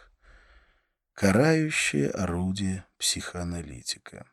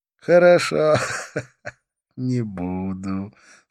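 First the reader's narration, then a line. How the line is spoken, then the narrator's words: Laughing. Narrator (Russian): снова рассмеялся он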